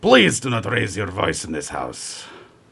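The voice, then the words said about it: Put-on accent for priest character. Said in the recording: “I play the role of Father Sokolov, who is a Orthodox priest ... I get to do an accent ... Can we have a sample of that accent”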